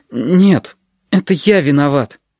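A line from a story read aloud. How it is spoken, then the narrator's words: Forced out, strained. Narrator (Russian): выдавил он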